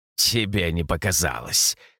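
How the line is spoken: Bleating snort. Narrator (Russian): хмыкнул сатир, судя по блеющему голосу

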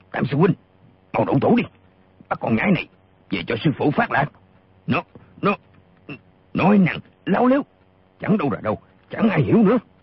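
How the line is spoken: Furious loud shout. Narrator (Vietnamese): Gã lùng càng giận điên lên, y quát to

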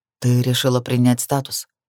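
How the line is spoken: Grim. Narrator (Russian): догадался он, мрачно кивнув

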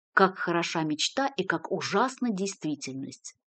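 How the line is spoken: Mumbling. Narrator (Russian): пробормотал он

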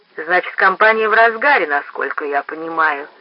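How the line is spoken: Plain. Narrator (Russian): сказал он

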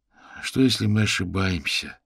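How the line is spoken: Weary speech. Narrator (Russian): устало произнес Нил

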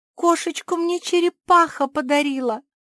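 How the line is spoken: Almost sobbing. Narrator (Russian): чуть не зарыдала Жози

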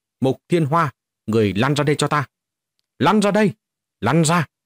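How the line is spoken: Loud shout. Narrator (Vietnamese): quát lớn

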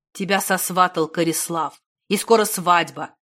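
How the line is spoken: Through gritted teeth. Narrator (Russian): процедил Негорат

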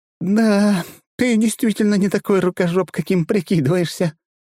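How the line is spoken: Nearly sobbing. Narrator (Russian): чуть не рыдая, умудряюсь выговорить

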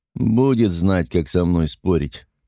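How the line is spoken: Grumbled. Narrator (Russian): пробурчал Мур

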